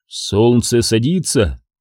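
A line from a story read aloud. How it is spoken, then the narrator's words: Muttering. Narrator (Russian): пробормотал Илбрек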